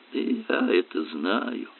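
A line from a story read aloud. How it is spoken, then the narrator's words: Muttered. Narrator (Russian): пробормотал Дональд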